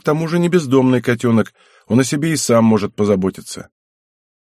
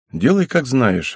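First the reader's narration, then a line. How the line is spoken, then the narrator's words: Sighing young man. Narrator (Russian): вздохнул парень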